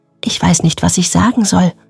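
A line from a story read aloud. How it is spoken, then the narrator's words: Whispered. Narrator (German): flüsterte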